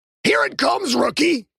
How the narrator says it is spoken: Tweedy screamed, his face a contorted mask of psychotic rage

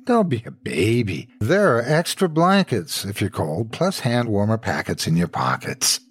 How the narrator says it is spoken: Mike snorted

